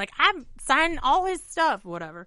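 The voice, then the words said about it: Southern accent celebrity impression. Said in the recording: “That's a really good Dolly Parton impression. ... It's one of my only accents is a southern accent.”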